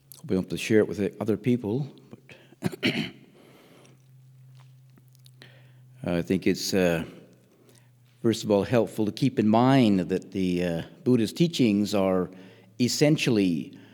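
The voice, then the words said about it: Congested, stuffy-nosed voice. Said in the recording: “Hopefully you can make out my accent. ... I've picked up a friendly Northumberland cold on the way.”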